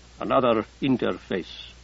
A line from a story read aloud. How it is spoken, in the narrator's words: Abdikadir said grimly